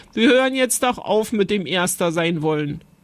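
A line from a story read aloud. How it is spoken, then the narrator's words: Giggling. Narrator (German): sagte Jonathan kichernd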